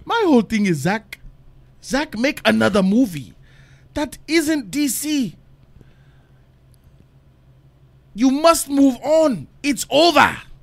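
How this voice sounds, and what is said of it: Put-on African accent. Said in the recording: “I got to give it in his voice ... He's from Ghana, Africa. So I give it to him in the African accent.”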